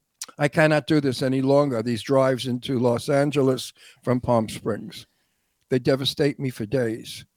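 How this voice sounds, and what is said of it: Hoarse, tired, worn-out voice. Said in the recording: “My voice is gone. I'm exhausted.”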